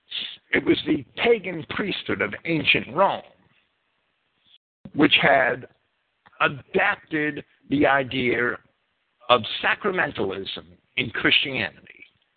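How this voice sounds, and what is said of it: New Jersey accent. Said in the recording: “there goes my New Jersey accent”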